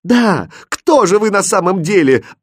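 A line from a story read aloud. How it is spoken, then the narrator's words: Desperate scream. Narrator (Russian): отчаянно закричала королевна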